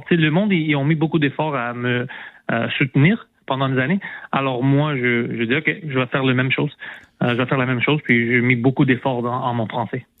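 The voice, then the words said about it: Non-native accent speaking French. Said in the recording (French): “à cause de ton accent français ... j'ai encore l'accent, je peux pas le perdre”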